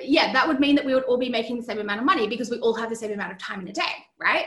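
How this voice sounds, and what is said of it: Australian accent. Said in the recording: “Yes, I am from Australia. Can you tell from my accent?”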